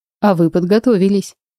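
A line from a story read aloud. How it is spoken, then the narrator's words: Wry snort. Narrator (Russian): хмыкнул фанатик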